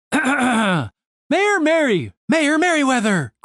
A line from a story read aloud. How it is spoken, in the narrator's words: cried a young half-elf who just stormed in